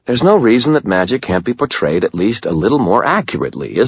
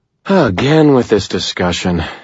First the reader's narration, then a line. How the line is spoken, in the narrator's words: Andy sighed